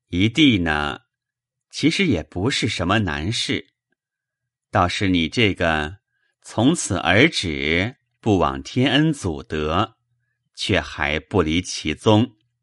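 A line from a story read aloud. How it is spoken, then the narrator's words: Sighing. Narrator (Chinese): 宝玉叹了口气，说道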